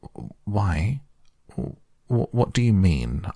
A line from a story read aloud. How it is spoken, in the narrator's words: asked Toad nervously